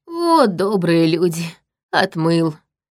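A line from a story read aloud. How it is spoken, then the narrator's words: Breathed out. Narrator (Russian): выдохнул странник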